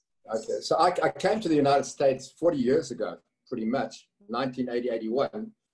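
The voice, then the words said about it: Non-Texan foreign accent. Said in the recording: “your beautiful non-Texan accent”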